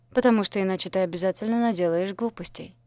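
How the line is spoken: Calm remark. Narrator (Russian): спокойно заметил Дэн

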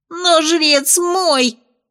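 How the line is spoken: Boy's squeal. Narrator (Russian): взвизгнул мальчишка

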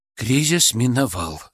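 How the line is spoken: Relieved exhale. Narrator (Russian): с облегчением выдохнул Артем

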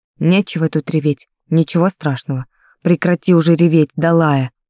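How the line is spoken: Somewhat rough tone. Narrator (Russian): вопреки некоторой грубости в тоне

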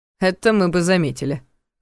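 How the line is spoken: Muttered snort. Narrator (Russian): хмыкнул себе под нос Ваня

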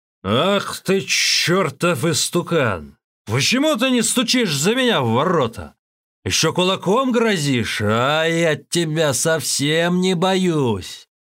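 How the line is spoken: Shouting. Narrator (Russian): Джишень закричал

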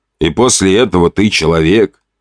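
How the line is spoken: Snorting. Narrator (Russian): хмыкнул я

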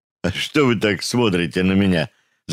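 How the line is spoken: Laughing. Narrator (Russian): засмеялся Рычагов

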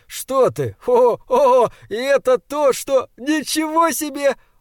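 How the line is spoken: Sleepy giggle. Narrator (Russian): Он сонно хихикнул

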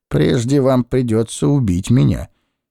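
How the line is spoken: Forced calm. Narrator (Russian): произнес я как можно более спокойно

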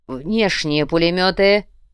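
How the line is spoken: Growled. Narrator (Russian): прорычал Кортес

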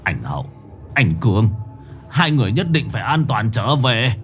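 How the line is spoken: Muttering. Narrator (Vietnamese): Ông Nhẫn lẩm bẩm

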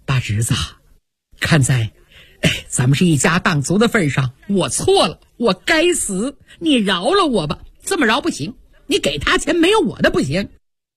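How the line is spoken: Frantic pleading. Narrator (Chinese): 贾瑞急得直磕头啊

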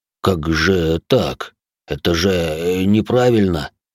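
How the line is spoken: Trembling voice. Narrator (Russian): дрогнувшим голосом произнес енот

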